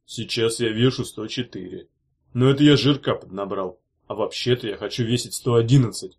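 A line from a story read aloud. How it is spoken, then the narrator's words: Deep bass voice. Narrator (Russian): сказал густым басом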